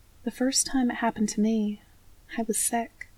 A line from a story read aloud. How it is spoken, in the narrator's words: she says quietly